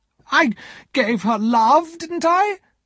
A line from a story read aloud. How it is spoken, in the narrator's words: Miss Havisham cried